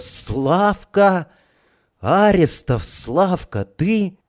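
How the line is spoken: Soft sudden cry. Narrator (Russian): кадет Сашка вдруг вскрикнул негромко

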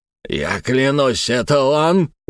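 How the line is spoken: Howl. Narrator (Russian): взвыл Фурсов

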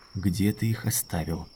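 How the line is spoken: Quiet. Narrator (Russian): сказал он тихо

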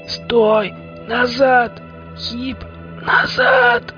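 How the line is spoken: Thin wheeze instead of shout. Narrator (Russian): Тонкое сипение вместо крика

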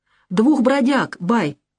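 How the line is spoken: Plain. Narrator (Russian): ответил Муза

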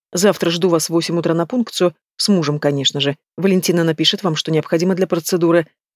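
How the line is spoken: Quiet clarification. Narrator (Russian): тихо уточняет

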